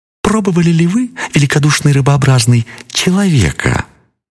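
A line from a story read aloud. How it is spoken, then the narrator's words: Thin sly squeak. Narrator (Russian): маленькая-то хитрая рыбка пищит в ответ тонким, хитрым голоском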